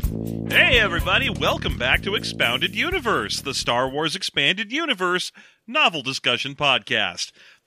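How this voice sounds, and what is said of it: Forced excited upbeat voice. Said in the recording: “I'm really working hard to put on this excited voice”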